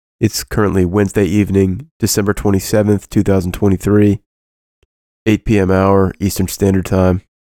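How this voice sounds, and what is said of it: Rough, sick-sounding voice. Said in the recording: “my voice is a little jacked up because I'm in the process of recovering from Christmas COVID”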